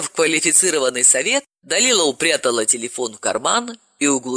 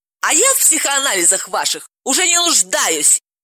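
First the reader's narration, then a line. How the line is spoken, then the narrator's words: Hysterical shout. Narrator (Russian): истерически закричала Ирина Сергеевна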